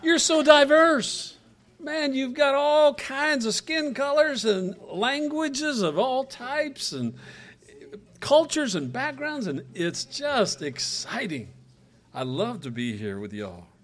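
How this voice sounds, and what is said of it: Mixed Western and Southern American accent. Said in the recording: “I've got country folk. I mean, Western folks. ... mix me up with the Southern folks, and so it's some type of mixed up Southernese”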